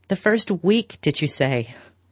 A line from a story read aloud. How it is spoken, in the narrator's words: He threw back his head with a long laugh